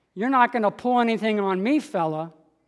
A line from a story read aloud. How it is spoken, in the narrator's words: I said